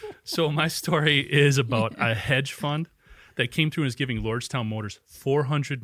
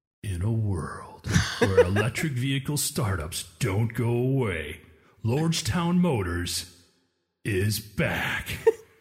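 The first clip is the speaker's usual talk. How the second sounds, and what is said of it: Movie trailer announcer voice. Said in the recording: “my like summer blockbuster movie trailer voice”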